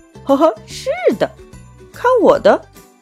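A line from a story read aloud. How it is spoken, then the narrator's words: Laughing. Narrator (Chinese): 大娃笑了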